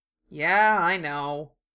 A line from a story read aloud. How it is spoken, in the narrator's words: Sano grumbled